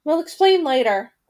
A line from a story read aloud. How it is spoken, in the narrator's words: Gretel said impatiently